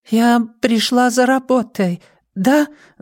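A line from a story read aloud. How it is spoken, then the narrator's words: Babbling. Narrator (Russian): залепетала Нина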